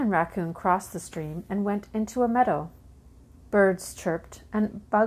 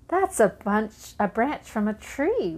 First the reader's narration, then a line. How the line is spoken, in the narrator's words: Raccoon laughed